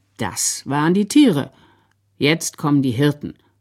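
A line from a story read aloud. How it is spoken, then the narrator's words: Very calm. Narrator (German): sagte der Sepp ganz ruhig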